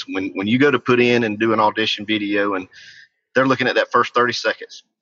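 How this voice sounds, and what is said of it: South Georgia Southern American accent. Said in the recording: “I'm a chunky fella from South Georgia with supposedly an accent”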